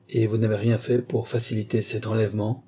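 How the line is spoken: Plain. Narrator (French): dit-elle

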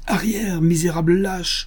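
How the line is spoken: Woman shouting. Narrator (French): cria-t-elle

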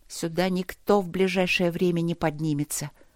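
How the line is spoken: Quietly. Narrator (Russian): сказала она тихо

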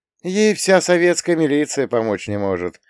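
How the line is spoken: Sympathetic sigh, mother. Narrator (Russian): сочувственно вздохнула родительница

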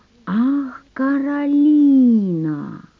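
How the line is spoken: Drawn out. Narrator (Russian): протянул Жорж

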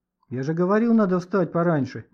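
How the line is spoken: Grumbling. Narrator (Russian): ворчал Леха

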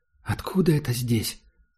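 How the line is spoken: Quiet question. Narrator (Russian): спросила Герда тихо

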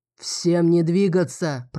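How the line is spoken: Deep booming bass. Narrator (Russian): прогудел густым басом

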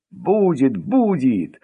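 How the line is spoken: Joyful reply. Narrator (Russian): радостно откликнулся директор

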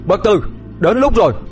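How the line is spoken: Loud shout. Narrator (Vietnamese): Đạt hét lớn

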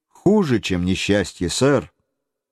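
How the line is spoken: Calm reply. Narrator (Russian): он спокойно ответил

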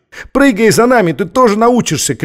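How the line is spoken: Shout. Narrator (Russian): крикнул ей Маттеус

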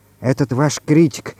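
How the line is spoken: Whispered question. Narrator (Russian): шепотом спросила Галя

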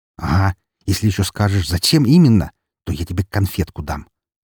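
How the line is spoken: Said angrily. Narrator (Russian): зло произнес

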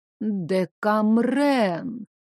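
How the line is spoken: Vague, drawn-out. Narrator (Russian): неопределенно протянула бабуля

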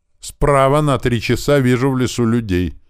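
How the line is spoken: Sudden shout. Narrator (Russian): неожиданно крикнул Винт

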